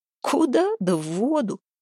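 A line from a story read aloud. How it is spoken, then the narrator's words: Giggling. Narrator (Russian): хихикнул Храпун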